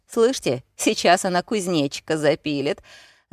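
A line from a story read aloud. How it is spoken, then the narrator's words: Laughing. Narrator (Russian): Засмеялся Кирк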